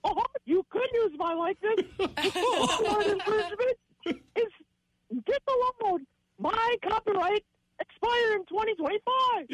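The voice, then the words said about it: Mickey Mouse cartoon voice. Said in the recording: “Mickey Mouse impersonation”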